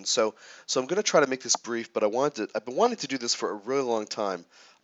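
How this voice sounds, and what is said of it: Congested voice from sinus infection. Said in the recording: “Pardon my voice today. ... I'm coming out of a little sinus infection, which had a lot of post-nasal drip action.”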